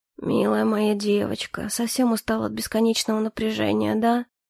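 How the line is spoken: Quiet. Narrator (Russian): негромко произнес

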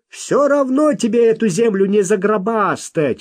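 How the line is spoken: Shouted. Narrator (Russian): выкрикнул кто-то

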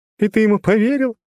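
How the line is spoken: Sudden loud laughter. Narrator (Russian): Свейни вдруг расхохоталась

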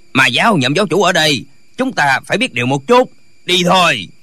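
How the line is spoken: Old man barking. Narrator (Vietnamese): lão vẫy tay quát

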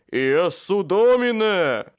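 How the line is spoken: Booming cry from beneath. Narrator (Russian): Трубным голосом возвал из-под груды вампиров Майкл

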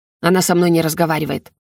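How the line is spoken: Grumbling dragon. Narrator (Russian): проворчал дракон

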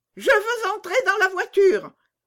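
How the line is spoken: Little girl shouting. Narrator (French): cria la petite fille

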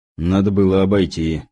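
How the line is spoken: Muttered. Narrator (Russian): пробурчал следовавший за мной Кузнецов

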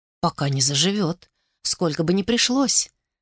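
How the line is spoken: Gentle answer. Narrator (Russian): ласково ответила Флорелл

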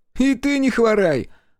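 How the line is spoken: Playful boy's shout. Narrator (Russian): озорно крикнул парнишка

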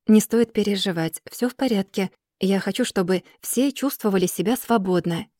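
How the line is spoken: Soft, gentle. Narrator (Russian): говорю я мягко

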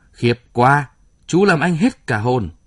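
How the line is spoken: Loud cry. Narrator (Vietnamese): Y lớn tiếng kêu

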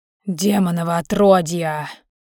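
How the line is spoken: Icy hiss through teeth. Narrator (Russian): сквозь зубы процедил ледяной

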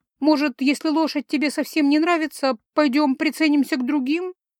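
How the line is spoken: Timid interjection. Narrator (Russian): Робко встряла

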